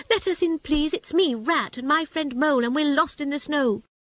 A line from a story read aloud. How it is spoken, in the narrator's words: cried the Rat